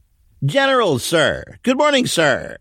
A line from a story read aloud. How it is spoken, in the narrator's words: said loudly, and it bounced off the buildings